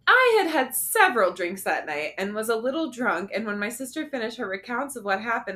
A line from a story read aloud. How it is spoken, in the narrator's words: I blurted out